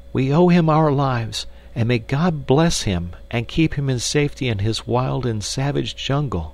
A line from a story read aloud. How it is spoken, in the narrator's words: cried the girl